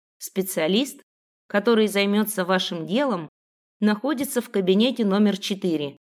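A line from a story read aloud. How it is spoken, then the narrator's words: Plain. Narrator (Russian): сказала я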